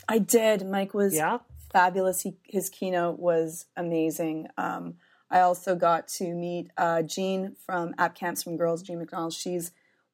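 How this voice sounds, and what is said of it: Hoarse, weak voice. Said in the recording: “I've lost my voice again.”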